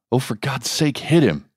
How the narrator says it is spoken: Andrew pleaded

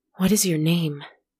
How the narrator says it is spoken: asked, panting, his instinctual terror being pushed further away by his carefully honed loneliness and pain

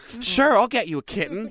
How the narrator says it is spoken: he said eagerly

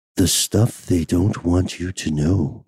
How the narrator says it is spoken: they whispered in my ear

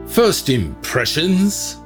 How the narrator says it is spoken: barked Sir Richard Durnford

